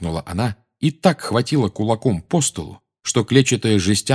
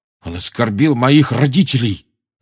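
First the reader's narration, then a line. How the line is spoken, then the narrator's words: Growling, furious. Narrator (Russian): прорычал Джордж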